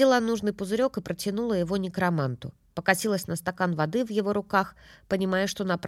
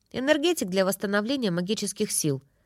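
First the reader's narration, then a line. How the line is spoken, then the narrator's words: Calm answer. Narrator (Russian): спокойно ответил Алистер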